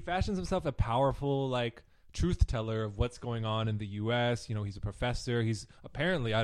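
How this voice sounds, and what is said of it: Usual voice. Nothing is said of it.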